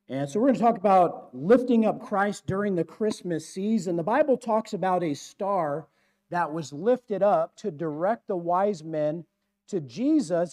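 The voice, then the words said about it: Strained, hoarse voice. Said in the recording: “I, I'm losing my voice and I need some amplification here”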